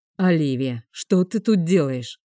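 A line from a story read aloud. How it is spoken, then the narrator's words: Irritated question. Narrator (Russian): раздраженно спросил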